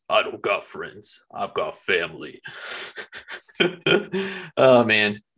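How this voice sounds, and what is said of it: Gravelly Vin Diesel impression. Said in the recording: “your Dominic Toretto impressions ... in your best Vin Diesel voice ... he sounds like he smokes a pack of Camel Silvers a day”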